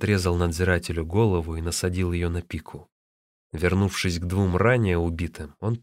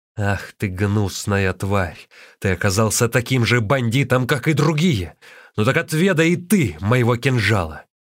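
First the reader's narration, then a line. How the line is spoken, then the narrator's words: Shout. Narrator (Russian): Лин Чун закричал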